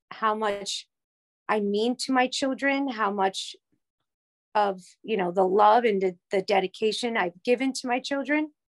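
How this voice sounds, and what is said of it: Emotional, choked-up voice. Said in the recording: “It can get a little emotional. I'm sorry.”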